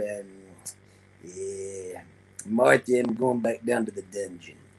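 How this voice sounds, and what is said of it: Stu Hart impression. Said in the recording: “good Stu Hart impression”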